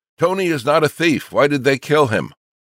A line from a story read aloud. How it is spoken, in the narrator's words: he was heard screaming